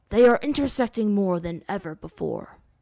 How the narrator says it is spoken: Roku said gravely

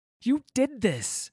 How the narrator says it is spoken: she yelled

